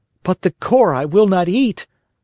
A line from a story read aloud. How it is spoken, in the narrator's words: cried Pinocchio in an angry tone